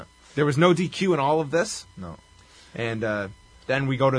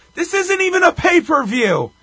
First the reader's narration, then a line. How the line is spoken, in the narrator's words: Gordy yells